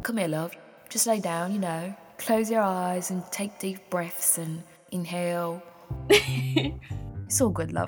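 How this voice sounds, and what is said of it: Laid-back put-on British accent. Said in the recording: “like the laid-back British friend ... please don't be offended by my accent.”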